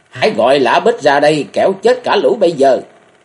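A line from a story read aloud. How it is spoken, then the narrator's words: Angry young woman screaming. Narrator (Vietnamese): Thiếu nữ Vận Cung Trang tức giận hét lên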